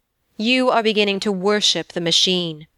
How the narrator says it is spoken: he said coldly

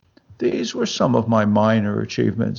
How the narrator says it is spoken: said the head, sadly

